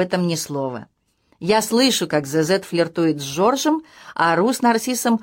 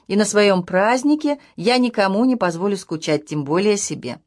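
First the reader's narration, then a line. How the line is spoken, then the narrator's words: Cheerful declaration. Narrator (Russian): весело заявляет она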